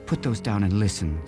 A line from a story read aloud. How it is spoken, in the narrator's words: said Judy